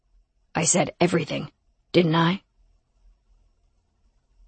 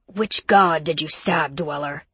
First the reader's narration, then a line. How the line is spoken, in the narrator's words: Rome growled